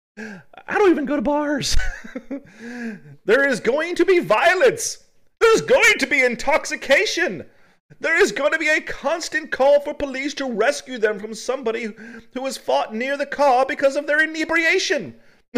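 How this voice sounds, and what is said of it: Funny put-on character voice. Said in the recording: “putting a funny Mildred accent to it ... I'm just giving her a voice ... your Mildred is spot on too”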